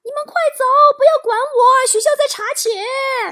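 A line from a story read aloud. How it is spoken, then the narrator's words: Desperate shouting. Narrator (Chinese): 班主任被带走时候对我们大喊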